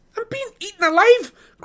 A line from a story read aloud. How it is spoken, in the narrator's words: cried Pippin